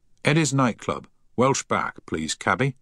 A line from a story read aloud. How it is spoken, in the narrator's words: he said firmly